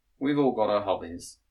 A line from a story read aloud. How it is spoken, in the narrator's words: replied